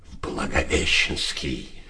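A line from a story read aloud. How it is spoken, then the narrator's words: Hoarse half-whisper. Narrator (Russian): хрипло гласил в полушепоте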